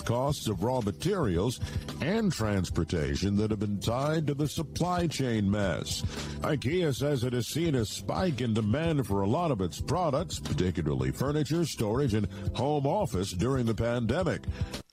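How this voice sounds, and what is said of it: Overly engaging, flirtatious news-reading voice. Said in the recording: “what a voice. That was a little too engaging. I don't think that was a news voice. That was a hello ladies kind of voice.”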